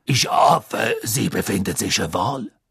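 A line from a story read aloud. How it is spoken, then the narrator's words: Deep voice. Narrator (German): sagte Madame Maxime mit tiefer Stimme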